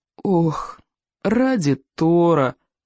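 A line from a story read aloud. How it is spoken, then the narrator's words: Miserable groan. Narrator (Russian): простонал несчастный Икинг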